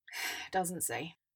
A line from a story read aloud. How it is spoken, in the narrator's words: Mandy sighed, feeling wrung out